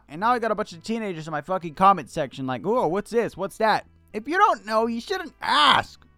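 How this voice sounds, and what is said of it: Yelling. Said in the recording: “I'm yelling. I shouldn't yell.”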